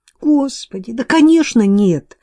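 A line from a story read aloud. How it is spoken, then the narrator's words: Shocked exclamation. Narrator (Russian): воскликнула Кейт, потрясенная тем, что ему в голову могут приходить такие мысли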